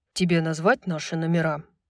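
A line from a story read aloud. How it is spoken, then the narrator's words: Cold question. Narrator (Russian): не менее холодно спросил Хант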